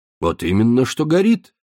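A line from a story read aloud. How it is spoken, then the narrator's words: Solemn statement. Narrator (Russian): торжественно произнес Бернар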